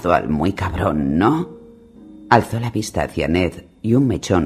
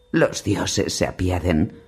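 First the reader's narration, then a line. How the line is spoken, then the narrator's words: Murmur, suppressed agony. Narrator (Spanish): murmuró tragándose la agonía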